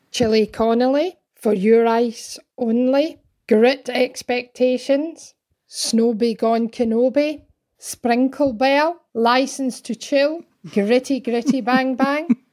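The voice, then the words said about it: Scottish accent. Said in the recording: “The names sound better, as most things do, in a Scottish accent ... at her home in North Berwick, Scotland”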